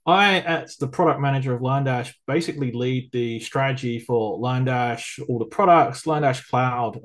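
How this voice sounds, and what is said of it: English accent. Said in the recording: “I live in England, hence the weird accent, which probably sounds very unique”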